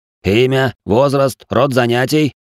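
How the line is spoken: Barked in bass voice. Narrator (Russian): рявкнул басом

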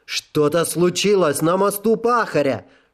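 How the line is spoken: Stallion yelling. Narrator (Russian): заорал жеребец

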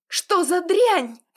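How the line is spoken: Involuntary cry. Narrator (Russian): вскрикнула невольно

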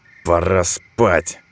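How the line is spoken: Smirking snort. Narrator (Russian): хмыкнул он

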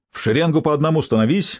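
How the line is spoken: Barked command. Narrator (Russian): рявкнул он

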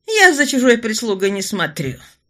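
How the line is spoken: Haughty snort. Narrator (Russian): фыркнула графиня

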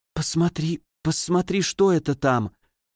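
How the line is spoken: Stammering whisper. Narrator (Russian): Заикаясь, она прошептала

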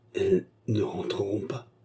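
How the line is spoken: Dazed articulated voice. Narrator (French): articula Fernand d'une voix hébétée

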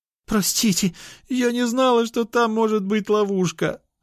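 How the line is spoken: Pleading, sobbing with guilt. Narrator (Russian): взмолилась Мария, рыдая от чувства вины

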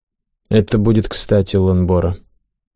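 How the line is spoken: Dry agreement. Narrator (Russian): довольно сухо согласился командир наемников

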